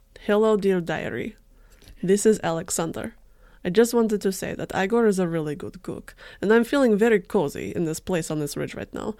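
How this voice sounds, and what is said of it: Put-on Russian accent. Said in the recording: “do a really good Russian accent”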